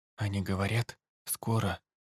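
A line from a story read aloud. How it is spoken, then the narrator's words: Whisper. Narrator (Russian): прошептал он солдатику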